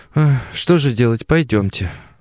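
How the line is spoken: Sighing. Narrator (Russian): вздохнул Костя

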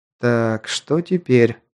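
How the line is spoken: Muttered under breath. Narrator (Russian): пробормотал под нос

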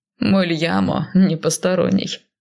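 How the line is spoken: Short laugh. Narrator (Russian): хохотнул Кайл

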